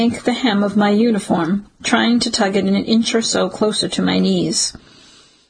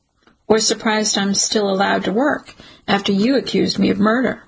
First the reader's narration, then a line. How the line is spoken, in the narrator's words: The detective sighs